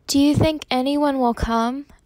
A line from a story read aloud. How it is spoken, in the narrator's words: asked nervously